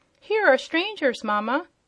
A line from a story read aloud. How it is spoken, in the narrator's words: cried the shrill and childish voice of some unseen person